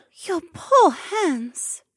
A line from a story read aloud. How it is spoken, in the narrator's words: Shay crooned in her melodious voice, and even the sound felt like a soothing balm